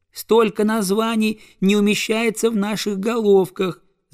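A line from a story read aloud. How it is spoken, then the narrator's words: Squeaky goslings' chorus. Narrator (Russian): запищали гусята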